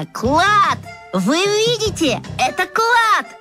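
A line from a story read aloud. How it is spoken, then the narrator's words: Joyful yelling. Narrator (Russian): оно радостно завопило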